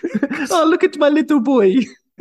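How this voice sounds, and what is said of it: Affectionate Italian grandmother accent. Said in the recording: “you didn't need the accent... That was an affectionate accent. That's a shout out to all my nonnas out there... So bad.”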